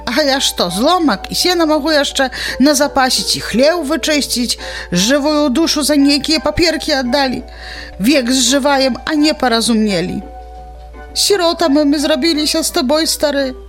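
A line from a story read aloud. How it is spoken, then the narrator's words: Old woman sobbing. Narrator (Belarusian): усхліпнула старая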